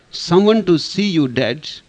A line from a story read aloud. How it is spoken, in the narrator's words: yelled the kid